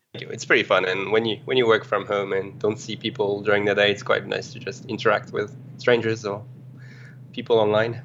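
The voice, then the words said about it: French accent. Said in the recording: “terrible French accent ... it's foreign and engaging. It's um not terrible at all”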